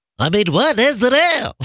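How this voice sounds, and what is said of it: Bad stacked impression of two voices. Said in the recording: “Regis Philbin doing a Jerry Seinfeld impression ... my really bad impressions on top of each other ... you did combine the two just then. I can totally hear two different people”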